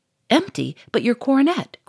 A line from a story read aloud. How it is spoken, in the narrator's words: cried the Duke